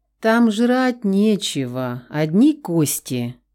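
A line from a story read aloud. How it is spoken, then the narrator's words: Sigh, feigned regret. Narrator (Russian): вздохнул Давид с лживым сожалением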